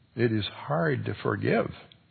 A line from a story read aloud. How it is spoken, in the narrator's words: he murmured